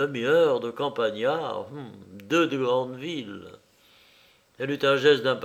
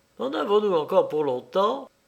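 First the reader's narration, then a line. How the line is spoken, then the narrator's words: Sudden curt question. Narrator (French): Madame Deschamps demanda tout à coup d'une voix brève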